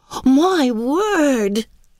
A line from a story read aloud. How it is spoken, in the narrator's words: cried delighted Martha